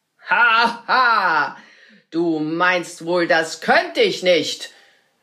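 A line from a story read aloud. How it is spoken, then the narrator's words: Wizard calling out. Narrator (German): rief der Zauberer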